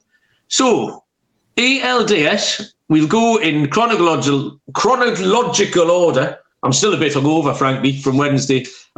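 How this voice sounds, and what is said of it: British accent. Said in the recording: “your NFL picks with a British accent”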